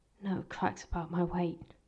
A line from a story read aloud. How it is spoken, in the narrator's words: Galahad muttered